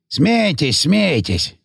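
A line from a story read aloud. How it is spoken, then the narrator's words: Grumbling. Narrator (Russian): заворчал Гейгер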